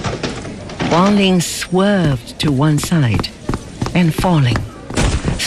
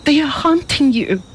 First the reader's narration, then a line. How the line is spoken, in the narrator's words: she cried